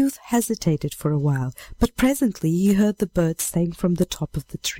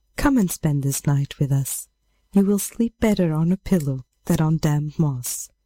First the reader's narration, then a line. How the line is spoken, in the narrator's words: The maiden answered kindly